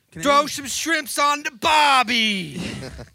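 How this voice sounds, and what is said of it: Put-on Australian accent. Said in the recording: “How do you do like an Australian accent? ... That's not bad, man.”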